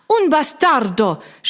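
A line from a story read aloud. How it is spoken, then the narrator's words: Woman screaming. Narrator (German): schrie die Italienerin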